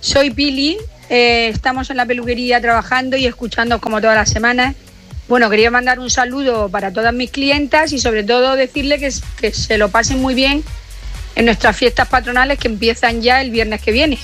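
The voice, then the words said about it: Murcian Spanish accent. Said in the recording (Spanish): “Me gusta el acento murciano.”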